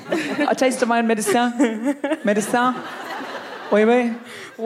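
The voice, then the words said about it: Mock French accent. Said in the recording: “English words with a French accent”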